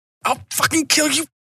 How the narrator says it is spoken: Capley hissed

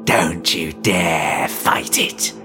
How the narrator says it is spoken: his reflection hissed

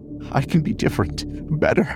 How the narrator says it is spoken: Even pleaded

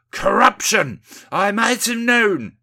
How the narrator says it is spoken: shouts Windy

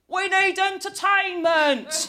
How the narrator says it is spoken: yells a fat, rich, married man

